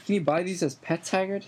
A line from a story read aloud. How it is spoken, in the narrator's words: He asked excitedly